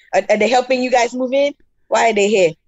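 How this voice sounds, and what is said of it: Imitates another person's accent. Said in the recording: “my dad, I, I, imitate his accent sometimes”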